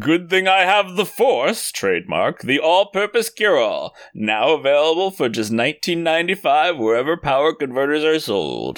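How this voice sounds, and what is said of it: Dramatic film-character impression. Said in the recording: “dramatic reading? ... That was my Luke impression.”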